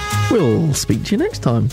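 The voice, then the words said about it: Slightly high-pitched camp teacher voice. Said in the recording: “You went into your little cam teacher voice again ... It was just a little high pitch.”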